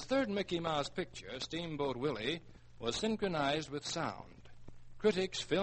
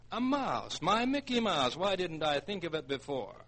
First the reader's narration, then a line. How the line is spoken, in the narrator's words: he excitedly exclaimed